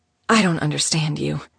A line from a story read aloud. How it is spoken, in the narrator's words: she muttered